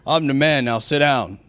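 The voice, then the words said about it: Put-on deep manly voice. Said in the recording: “Voice get all deep. ... I naturally don't have a deep voice.”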